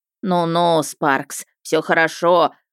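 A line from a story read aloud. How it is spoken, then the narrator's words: Deep bass. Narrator (Russian): густым басом вещала Хольт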